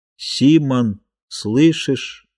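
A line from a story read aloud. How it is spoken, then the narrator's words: Slow uneven knocking. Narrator (Russian): медленно, неровно стучало в трубе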